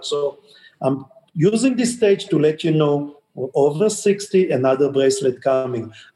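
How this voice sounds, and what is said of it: Non-native English accent. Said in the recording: “my English is still, you can hear, I still have the accent”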